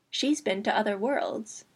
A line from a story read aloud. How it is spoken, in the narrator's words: Kirjava said quietly